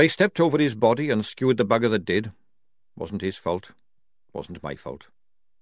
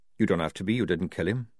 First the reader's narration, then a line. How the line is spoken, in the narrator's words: said Jackram evenly